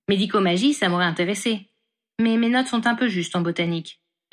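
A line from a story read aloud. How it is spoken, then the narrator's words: Plain. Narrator (French): répondit-elle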